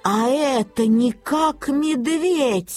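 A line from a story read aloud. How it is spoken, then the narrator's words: Exclaimed. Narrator (Russian): воскликнула бабушка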